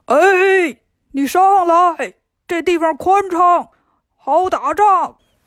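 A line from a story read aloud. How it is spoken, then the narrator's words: Shouting from a cliff. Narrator (Chinese): 八戒站在山崖上喊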